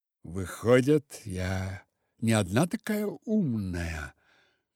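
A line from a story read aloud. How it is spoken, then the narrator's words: Sighing. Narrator (Russian): вздохнула Снежана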